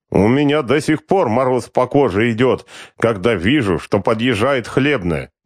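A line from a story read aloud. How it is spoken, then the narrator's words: Tipsy toothless lisping man. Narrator (Russian): прошепелявил один из подвыпивших мужичков, совершенно беззубый, с запавшими щеками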